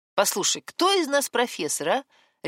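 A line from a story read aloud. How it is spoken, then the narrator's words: Barked. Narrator (Russian): рявкнул он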